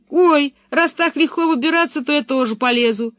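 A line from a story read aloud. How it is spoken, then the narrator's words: Calling out from above. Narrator (Russian): крикнул Томми, все еще сидевший на дереве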